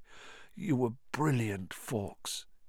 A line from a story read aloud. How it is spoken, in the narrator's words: said Harry thickly